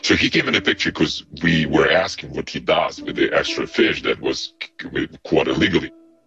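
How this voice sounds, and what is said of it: Russian accent, disguised voice. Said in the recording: “I've disguised the voice somewhat, but hopefully you can tell that the Russian accent is very much genuine.”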